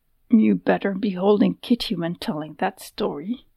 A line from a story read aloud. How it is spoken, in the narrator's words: she muttered, not knowing what else to say